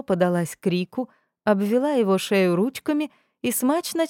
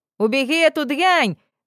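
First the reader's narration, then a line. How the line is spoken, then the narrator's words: Yelling. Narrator (Russian): завопил он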